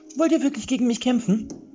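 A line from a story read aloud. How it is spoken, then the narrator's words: Shouting over fire's roar. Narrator (German): rief Vollbart und versuchte, das Getöse des brennenden Hauses zu übertönen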